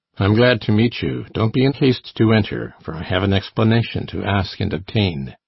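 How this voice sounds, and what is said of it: Deep male voice. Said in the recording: “cried a deep voice, the rider's”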